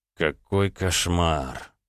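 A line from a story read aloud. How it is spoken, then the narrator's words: Groaning. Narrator (Russian): простонал Роман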